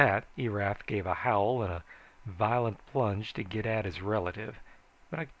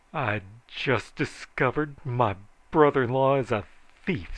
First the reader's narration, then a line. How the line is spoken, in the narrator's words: said Joel bitterly